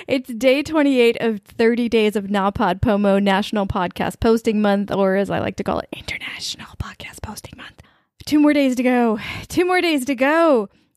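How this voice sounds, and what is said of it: Exhausted, tired-sounding voice. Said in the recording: “I sound exhausted. ... I'm exhausted.”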